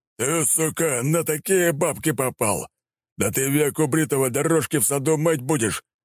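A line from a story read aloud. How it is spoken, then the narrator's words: Big man yelling. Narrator (Russian): вопит здоровяк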